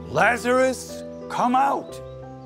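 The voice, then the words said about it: Loud calling-out voice. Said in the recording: “called out in a loud voice”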